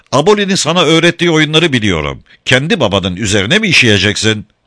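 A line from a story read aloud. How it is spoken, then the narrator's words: Laughing. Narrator (Turkish): Sir Francis gülerek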